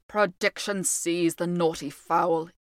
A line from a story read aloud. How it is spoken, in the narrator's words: he muttered